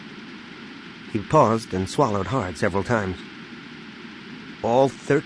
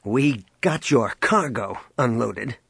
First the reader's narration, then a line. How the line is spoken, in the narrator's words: he snapped